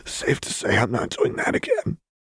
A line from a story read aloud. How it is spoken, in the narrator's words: Lux rasped